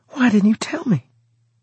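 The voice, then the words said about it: Almost whispering. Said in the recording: “she said, almost whispering.”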